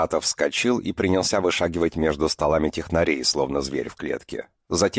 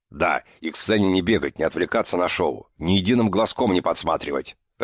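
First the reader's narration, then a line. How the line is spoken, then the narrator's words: Barked over microphone, colonel. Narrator (Russian): рявкнул полковник в микрофон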